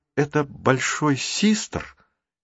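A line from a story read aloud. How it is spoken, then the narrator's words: Uncertain speech. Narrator (Russian): неуверенно заговорила Марук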